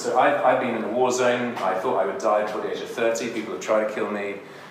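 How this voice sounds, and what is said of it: British accent. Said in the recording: “Tell my accent. ... I'm British.”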